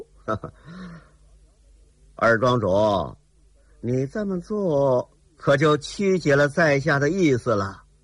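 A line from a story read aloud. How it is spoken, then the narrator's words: Cold sneer. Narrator (Chinese): 齐天恨冷冷一笑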